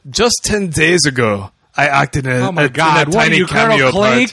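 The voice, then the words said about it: Imitates another person's voice, poorly. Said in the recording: “I'm going to try my best Werner accent ... That was terrible.”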